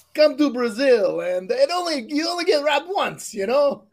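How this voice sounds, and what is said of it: Put-on Italian accent. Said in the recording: “That's Italian. ... accent.”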